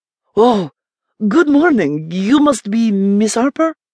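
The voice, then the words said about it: Masculine Mexican accent. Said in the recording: “He greeted in a Mexican accent similar to Maria's, only his was masculine”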